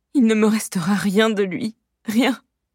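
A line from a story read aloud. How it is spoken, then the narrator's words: Moan. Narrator (French): gémit-elle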